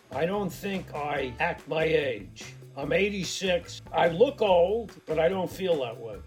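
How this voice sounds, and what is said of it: Gravelly Brooklyn accent. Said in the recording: “That gravelly Brooklyn accent”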